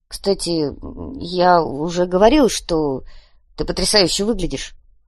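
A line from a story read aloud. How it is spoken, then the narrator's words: Mumbled. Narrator (Russian): промямлил Виктор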